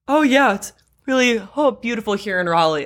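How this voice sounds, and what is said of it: Hiding breathlessness while speaking. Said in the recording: “when you're breathing and you're out of breath, but you don't want anyone to know mm-hmm. that you're out of breath”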